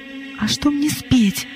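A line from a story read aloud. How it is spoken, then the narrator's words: Nervous whisper. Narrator (Russian): взволнованно шепнула Глэдис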